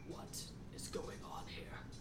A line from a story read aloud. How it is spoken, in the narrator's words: He just says in a raspy voice